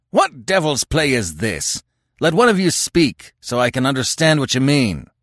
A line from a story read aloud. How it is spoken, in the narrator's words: beat down the din with a bull-like roar and bellowed